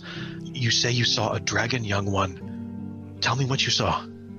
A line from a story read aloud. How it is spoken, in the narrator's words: whispers and he says